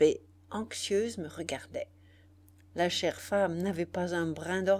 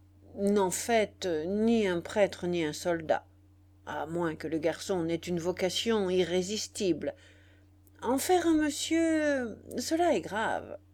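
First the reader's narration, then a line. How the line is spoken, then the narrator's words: Grave tone. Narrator (French): Il reprit d'un ton grave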